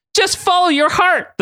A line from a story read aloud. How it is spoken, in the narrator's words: the boy Sora yelled